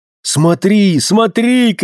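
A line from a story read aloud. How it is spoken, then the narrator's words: Shouting. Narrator (Russian): кричал он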